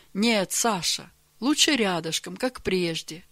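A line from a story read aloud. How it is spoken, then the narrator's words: Gentle correction. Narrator (Russian): мягко поправил его Георгий Иванович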